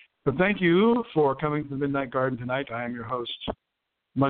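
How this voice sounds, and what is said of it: Usual voice. Nothing is said of it.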